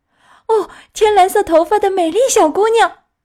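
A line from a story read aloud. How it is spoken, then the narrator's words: Shouting. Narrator (Chinese): 匹诺乔大叫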